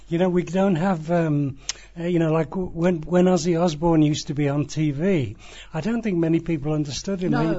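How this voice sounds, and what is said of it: English West Midlands accent. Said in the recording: “our accents are reasonably similar to Ozzy Osbourne's”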